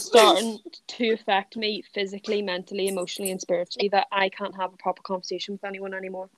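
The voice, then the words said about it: Irish accent. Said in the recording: “we can keep the Irish accent”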